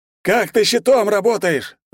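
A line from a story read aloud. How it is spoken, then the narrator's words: Yelling close to ear. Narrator (Russian): завопил гудящий над ухом Жора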